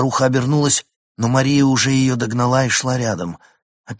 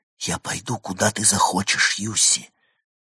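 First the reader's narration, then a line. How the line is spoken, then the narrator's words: Hurried whisper. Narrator (Russian): торопливо прошептала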